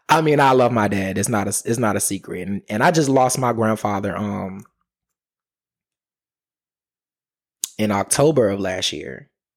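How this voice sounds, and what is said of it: Emotional voice. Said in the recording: “Oh my God, I'm getting emotional.”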